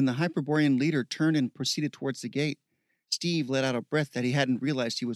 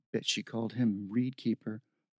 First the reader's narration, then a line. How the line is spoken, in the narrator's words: muttered